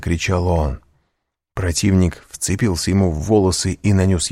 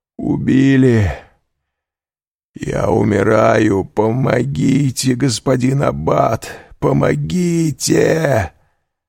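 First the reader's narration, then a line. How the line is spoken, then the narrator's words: Hoarse, weak desperate shout. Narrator (Russian): Кадрус из последних сил крикнул хриплым голосом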